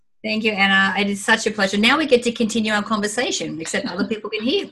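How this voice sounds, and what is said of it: Australian accent. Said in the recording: “you can tell by her accent, ... an Aussie”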